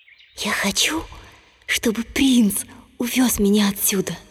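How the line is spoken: Whispered. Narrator (Russian): принцесса прошептала

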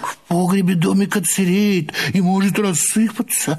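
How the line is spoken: Timid objection. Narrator (Russian): робко возразил кум Тыква

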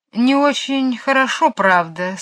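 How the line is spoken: Sad. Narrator (Russian): сказал он грустно

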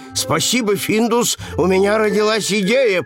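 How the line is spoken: Shouting. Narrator (Russian): прокричал он

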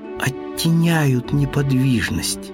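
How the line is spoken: Plain. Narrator (Russian): наконец сказал он

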